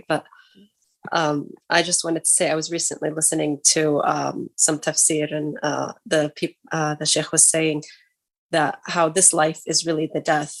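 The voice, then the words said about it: Sick, strained voice. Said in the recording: “I'm kind of sick, so my voice is not that great”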